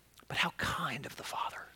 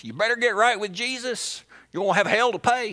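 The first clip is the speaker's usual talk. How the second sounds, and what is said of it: Put-on folksy accent. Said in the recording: “Y'all didn't know I had that accent.”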